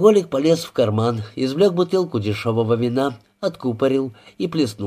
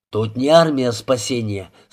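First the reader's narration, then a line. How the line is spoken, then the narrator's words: Grumbled. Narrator (Russian): снова пробурчал Мисколо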